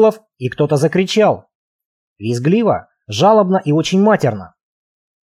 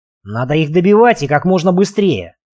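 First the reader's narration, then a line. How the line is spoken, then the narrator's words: Barked. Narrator (Russian): рявкнул Марк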